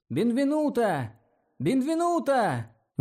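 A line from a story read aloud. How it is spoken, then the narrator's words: Distant shouting. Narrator (Russian): закричали с опушки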